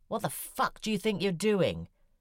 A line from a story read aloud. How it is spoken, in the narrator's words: One of them shouted at me